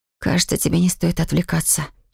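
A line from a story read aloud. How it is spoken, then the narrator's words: Hoarse mutter. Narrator (Russian): хрипло пробормотала я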